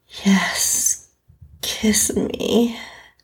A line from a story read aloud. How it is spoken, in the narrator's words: breathlessly replied